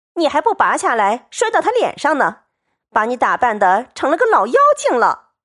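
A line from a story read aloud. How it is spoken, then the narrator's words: Group laughing. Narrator (Chinese): 众人笑道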